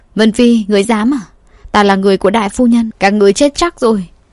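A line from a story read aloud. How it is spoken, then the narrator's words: Frightened scream. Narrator (Vietnamese): Ả nô tỳ sợ hãi hét lên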